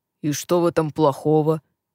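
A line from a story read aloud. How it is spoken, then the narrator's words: Surprised deep voice. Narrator (Russian): пробасил удивленный Глен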